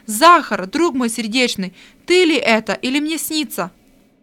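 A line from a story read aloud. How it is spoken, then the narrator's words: Surprised exclamation. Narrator (Russian): от удивления воскликнул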